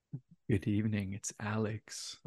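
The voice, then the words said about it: Spooky ghost character voice. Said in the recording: “Ooh, that's a good one. That's like Haunted nice. Mansion ghosts.”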